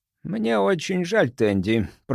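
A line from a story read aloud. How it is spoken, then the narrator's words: Hoarse wheeze. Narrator (Russian): прохрипел он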